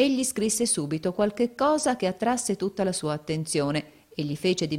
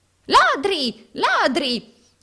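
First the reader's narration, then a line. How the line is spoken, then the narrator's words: Moneylender's shriek. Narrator (Italian): strillò l'usuraio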